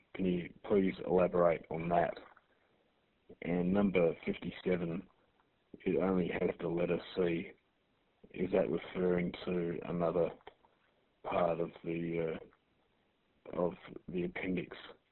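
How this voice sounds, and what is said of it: Thick accent. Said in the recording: “The guy's got a pretty thick accent.”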